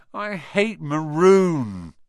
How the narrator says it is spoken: Ron moaned half-heartedly

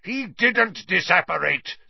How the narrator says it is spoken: Snape roared, now very close at hand

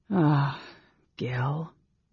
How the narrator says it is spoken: Tanis sighed

